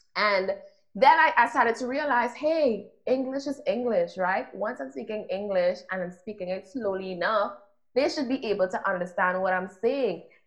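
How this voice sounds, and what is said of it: Strong Caribbean island accent. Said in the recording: “I am this island girl with a very strong accent.”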